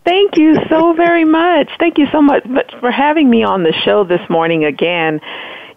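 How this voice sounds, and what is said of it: Hoarse, nearly lost voice. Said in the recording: “my voice is just about gone because I've been yelling, just yelling from the rafters for the past couple of days”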